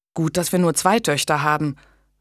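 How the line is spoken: Low murmur. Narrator (German): raunte Julian seiner Frau zu

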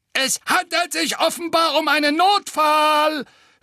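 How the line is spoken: Mocking. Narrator (German): höhnte der zweite Wasserspeier

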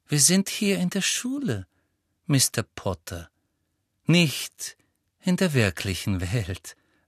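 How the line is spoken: Gentle. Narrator (German): sagte sie sanft

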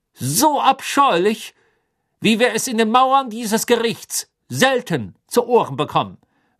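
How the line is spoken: Raised, drowning voice. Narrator (German): sagte Crouch mit erhobener Stimme, die die seines Sohnes erstickte

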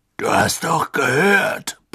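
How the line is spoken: Blustering. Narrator (German): polterte er

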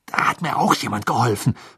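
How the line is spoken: Angry hiss. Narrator (German): fauchte Harry

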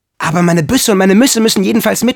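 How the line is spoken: Shouting. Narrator (German): schrie Michel

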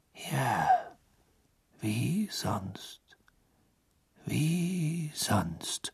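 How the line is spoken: Murmured. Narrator (German): murmelte Dumbledore

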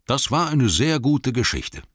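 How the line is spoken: Plain. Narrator (German): sagte er

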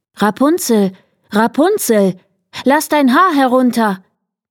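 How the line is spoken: Calling out. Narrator (German): er rief

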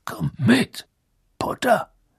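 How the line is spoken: Growling. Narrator (German): knurrte er

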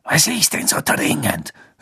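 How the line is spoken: Hissed. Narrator (German): Snape zischen

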